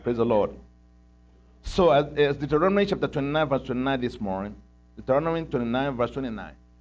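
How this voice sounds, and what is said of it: African-accented English. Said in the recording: “if you can understand my accent ... I got my own African accent.”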